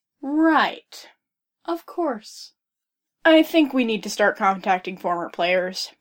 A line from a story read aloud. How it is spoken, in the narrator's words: Mario said, heaving a sigh